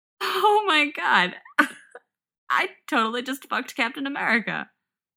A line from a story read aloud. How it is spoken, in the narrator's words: she says, giggling breathlessly